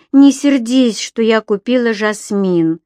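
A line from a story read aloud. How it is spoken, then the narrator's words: Unhappy voice. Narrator (Russian): несчастным голосом проговорила Энсли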